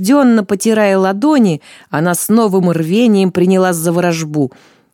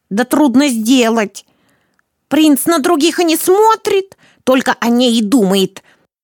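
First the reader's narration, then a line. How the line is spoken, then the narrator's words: Snapping old woman. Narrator (Russian): Огрызнулась старуха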